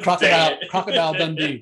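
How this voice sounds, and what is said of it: Australian accent. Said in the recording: “That's my Australian accent”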